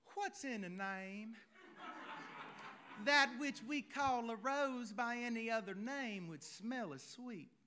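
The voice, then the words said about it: Exaggerated southern American accent. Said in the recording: “play the role of Juliet with a southern accent ... I didn't say I was good at accents”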